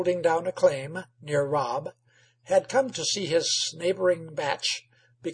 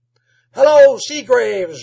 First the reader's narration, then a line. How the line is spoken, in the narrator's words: yelled Rob from the door